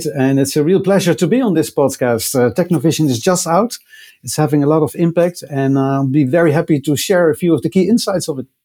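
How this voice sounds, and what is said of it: Dutch accent. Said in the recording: “I'm doing this broadcast from the Netherlands, as you can probably tell by my accent, which I wouldn't be able to hide.”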